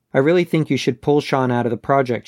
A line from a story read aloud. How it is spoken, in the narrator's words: she said